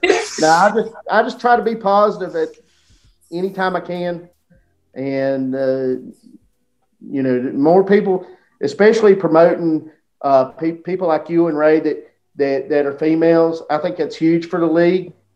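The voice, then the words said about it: Strong small-town American accent. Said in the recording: “I probably got the worst accent out of anybody in the league ... It was based after a small town called Mount Airy, which is only like 45 minutes from me. So if you wonder where I got my accent from, it's from the Andy Griffith Show.”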